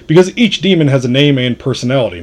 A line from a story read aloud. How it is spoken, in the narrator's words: Magnot said